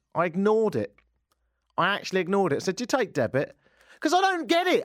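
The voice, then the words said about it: London English accent. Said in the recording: “Having an accent in this country ... the fallback for me, of course, is the accent ... you're not from round here ... I'm from London”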